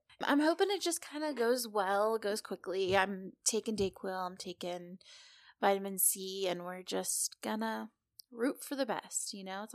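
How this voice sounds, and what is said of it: Sick-sounding, slightly off voice. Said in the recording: “sick again... my voice might be a little bit funky”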